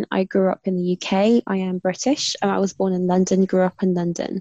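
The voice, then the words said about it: British accent. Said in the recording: “my sexy British accent”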